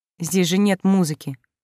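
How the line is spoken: Quiet, shy remark. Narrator (Russian): негромко заметила я, почему-то не в силах поднять на него глаза

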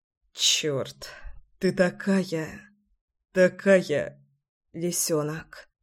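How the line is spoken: Muffled mumbling. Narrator (Russian): бормотал он в мою шею

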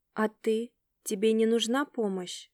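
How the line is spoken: Mumbling. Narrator (Russian): я мямлила в его присутствии

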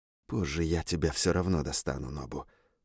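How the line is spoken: Quiet private speech. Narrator (Russian): произнес он тихо, чтобы его услышал только я

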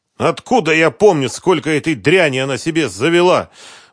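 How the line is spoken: Shouting. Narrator (Russian): буквально выкрикнул Концевич

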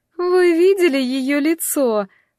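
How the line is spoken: Girl giggling, asking. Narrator (Russian): спросила одна из девушек, хихикая

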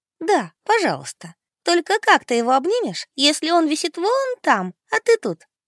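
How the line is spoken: Giggling. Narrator (Russian): хихикнула Ада

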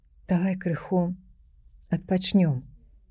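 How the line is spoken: Weak quiet whisper. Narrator (Belarusian): ціха прашаптаў Міця слабым голасам

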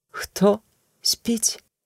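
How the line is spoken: Trembling voice. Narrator (Belarusian): спытала Эгла дрогкім голасам

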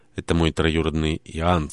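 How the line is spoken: Plain. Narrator (Russian): сказал Джошуа

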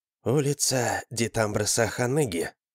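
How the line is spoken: Woman, barely above whisper. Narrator (Russian): произнесла дама чуть громче шепота

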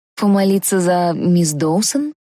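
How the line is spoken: Hesitant, regretful suggestion. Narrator (Russian): неуверенно предположила я, уже жалея, что начала разговор

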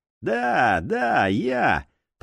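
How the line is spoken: Grumbling. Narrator (Russian): проворчал владелец забегаловки

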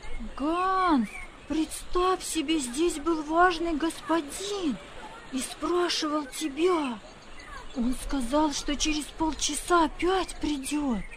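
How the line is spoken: Children shouting. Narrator (Russian): Гансу навстречу выбежали дети и кричали

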